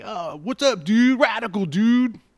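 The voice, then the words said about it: Surfer dude accent. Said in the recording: “that sort of, like, surfer kind of accent that they do”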